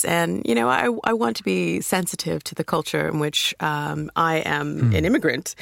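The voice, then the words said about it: American accent. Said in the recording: “You can tell by my accent. I'm from America”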